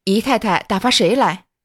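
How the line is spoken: Old woman sighing. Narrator (Chinese): 婆子叹说道

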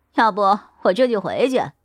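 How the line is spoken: Teasing, laughing. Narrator (Chinese): 王凯 笑着调侃道

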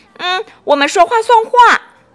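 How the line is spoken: Loud. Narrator (Chinese): 米莉又大声地说

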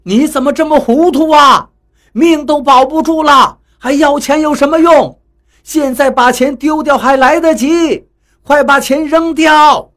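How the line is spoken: Anxious shouting. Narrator (Chinese): 看着他干着急，又蹦又跳，对他喊着

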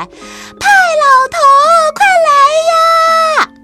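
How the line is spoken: Loud call. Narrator (Chinese): 菲菲禁不住大声叫起来

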